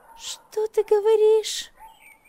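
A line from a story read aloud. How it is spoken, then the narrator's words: Shrill squeal. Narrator (Russian): взвизгнула та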